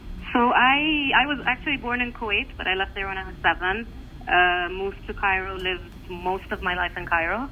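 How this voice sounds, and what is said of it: Slight foreign accent. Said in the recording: “People have heard a bit of an accent.”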